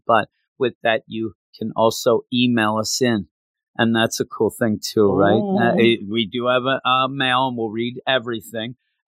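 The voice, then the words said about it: Voice in bad condition. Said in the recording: “my voice has been bad ... my voice is bad”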